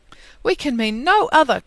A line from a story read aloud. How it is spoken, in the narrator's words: cried Lucy, smiling